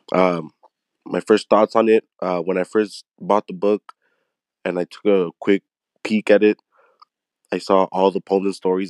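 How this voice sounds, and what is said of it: Slightly off, sick-sounding voice. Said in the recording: “my voice sounds a little off. I'm just a little sick. I do have a minor cough”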